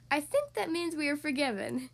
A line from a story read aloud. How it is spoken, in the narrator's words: Ariel laughed